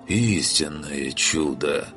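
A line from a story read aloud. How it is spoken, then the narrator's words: Strangely reverent voice. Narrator (Russian): Странно набожным голосом произнес Оркус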